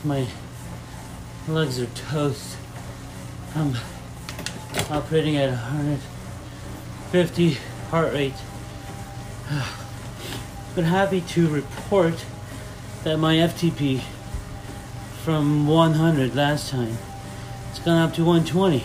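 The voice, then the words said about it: Strained, worn-out, breathless voice. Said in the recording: “my voice is lost”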